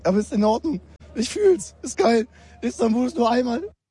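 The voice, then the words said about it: Hoarse, nearly lost voice. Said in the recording (German): “meine Stimme ist auch daheim geblieben”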